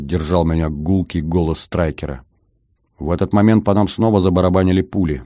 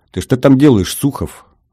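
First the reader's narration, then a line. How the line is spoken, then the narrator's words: Stern question. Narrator (Russian): строго спросил Гордон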